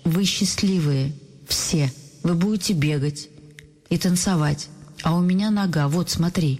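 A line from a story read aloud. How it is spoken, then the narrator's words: Almost angry, breaking with sobs. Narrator (Russian): почти сердитый голос срывается от рыдания, отвечает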